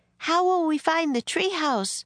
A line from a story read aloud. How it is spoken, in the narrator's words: cried Annie